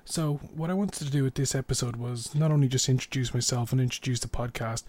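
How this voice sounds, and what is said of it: Irish accent. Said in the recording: “in case you're not familiar with my accent, I'm Irish.”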